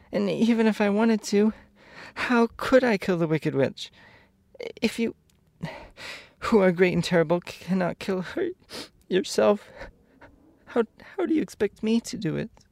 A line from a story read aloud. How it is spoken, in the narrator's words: sobbed